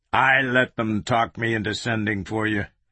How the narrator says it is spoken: Washington growled

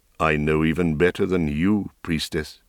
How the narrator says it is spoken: he said, his voice deepening

